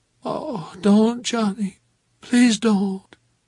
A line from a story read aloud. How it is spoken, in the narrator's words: She moaned when I did it and said